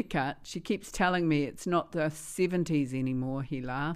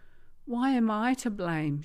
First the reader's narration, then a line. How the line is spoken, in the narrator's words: Shoshana cried